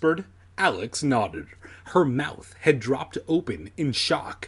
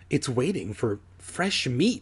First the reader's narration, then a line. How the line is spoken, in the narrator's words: Alex murmured